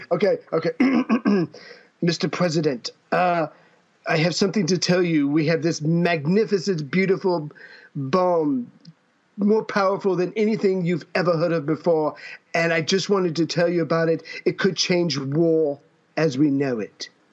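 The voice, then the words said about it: Imitates another person's voice. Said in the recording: “why are you sounding like a Donald Trump?”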